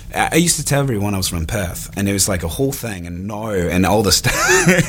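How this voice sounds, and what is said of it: Put-on Australian accent, slightly English. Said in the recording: “an Australian accent ... It's actually really good. ... It's not bad. ... But it teeters on English sometimes. ... not bad. It could be better”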